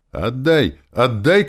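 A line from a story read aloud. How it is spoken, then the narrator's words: Shouting. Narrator (Russian): кричала она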